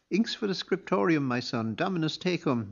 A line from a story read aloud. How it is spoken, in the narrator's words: Murchu told him cheerfully